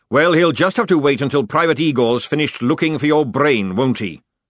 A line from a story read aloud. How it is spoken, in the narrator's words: snapped the sergeant